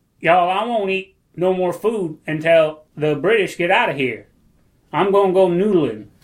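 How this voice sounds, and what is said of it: Put-on Southern accent. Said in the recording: “a Gandhi speech in a Southern accent ... That's a great Gandhi.”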